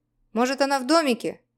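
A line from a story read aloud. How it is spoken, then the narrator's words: Friend shouting. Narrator (Russian): крикнул кто-то из друзей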